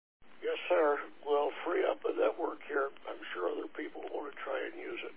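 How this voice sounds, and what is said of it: Hoarse, fading voice. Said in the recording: “losing my voice.”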